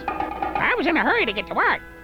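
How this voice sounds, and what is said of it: Put-on mom voice, hard to understand. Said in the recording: “mom voice ... I can hardly tell what you're saying when you use that voice”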